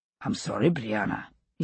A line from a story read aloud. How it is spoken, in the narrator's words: he said gruffly